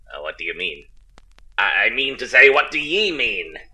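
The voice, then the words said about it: Forced put-on pirate accent. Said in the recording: “Do you have to talk like that? ... The whole pirate accent, it sounds forced. ... It's not real.”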